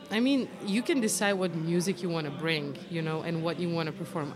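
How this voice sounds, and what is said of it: Slight foreign, non-American accent. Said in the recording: “I'm not going to be selling anybody that I'm American ... Even I do have an accent, right? ... A little bit, ... but it's still there. ... foreign singer”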